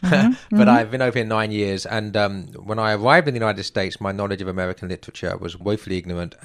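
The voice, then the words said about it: English accent. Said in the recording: “as my accent will betray... I'm not an American. I'm an Englishman”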